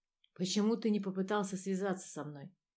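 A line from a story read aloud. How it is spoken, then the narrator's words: Mutter. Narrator (Russian): пробормотал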